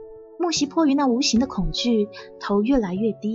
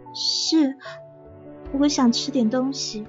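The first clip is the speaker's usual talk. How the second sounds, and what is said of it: Quiet, timid soft voice. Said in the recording (Chinese): “小声的说”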